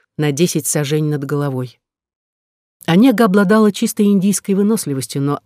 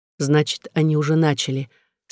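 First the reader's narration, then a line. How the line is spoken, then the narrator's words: Calm. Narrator (Russian): спокойно сказала Онега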